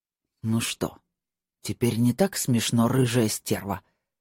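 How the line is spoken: Through gritted teeth. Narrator (Russian): спросил он сквозь зубы

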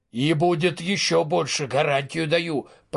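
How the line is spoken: Grumbling. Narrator (Russian): проворчал вышибало

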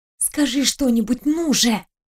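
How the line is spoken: Urgent hiss. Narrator (Russian): прошипела она

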